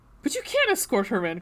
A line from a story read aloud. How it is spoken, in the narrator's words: Cressida blurted out